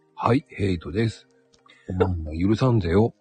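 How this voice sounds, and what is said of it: Flat, emotionless character voice. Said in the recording (Japanese): “ヘイトさんもおねえ言葉になるんですよ。... 心がない。... 無情。”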